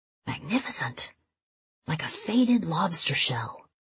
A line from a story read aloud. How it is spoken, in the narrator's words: whispering to himself